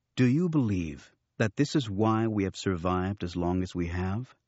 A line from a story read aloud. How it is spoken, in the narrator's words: Luke interrupted calmly